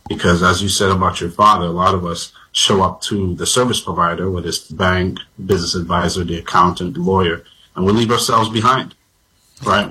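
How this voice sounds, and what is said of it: Slight Vincentian Caribbean accent. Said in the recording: “I hear a little accent from you ... I'm from an island now known as Vincent and the Grenadines.”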